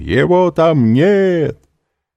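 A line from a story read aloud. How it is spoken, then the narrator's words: Loud shout. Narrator (Russian): унтер-офицер громко крикнул обоим жандармам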